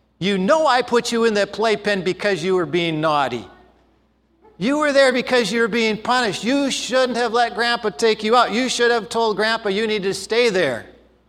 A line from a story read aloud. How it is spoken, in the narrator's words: said sternly